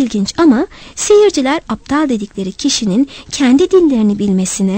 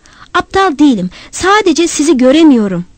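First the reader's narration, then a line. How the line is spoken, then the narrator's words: Shouting. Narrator (Turkish): diye bağırdım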